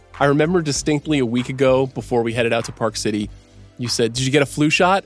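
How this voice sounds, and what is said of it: Sick, strange-sounding voice. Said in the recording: “my voice sounds strange, it's because I've been very sick”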